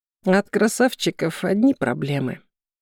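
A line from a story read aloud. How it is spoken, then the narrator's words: Displeased mutter. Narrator (Russian): пробормотала та недовольно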